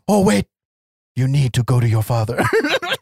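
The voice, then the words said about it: Poor put-on Eastern European accent. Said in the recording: “He actually sounds nothing... The whole Eastern European block is inside this guy's vocal cords. I am not giving him any justice in my terrible fucking accent. I'm just doing something other than my voice.”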